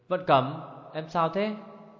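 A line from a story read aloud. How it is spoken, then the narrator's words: Panicked terrified cry. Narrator (Vietnamese): hốt hoảng, giờ sợ đến nỗi thất thanh kêu lên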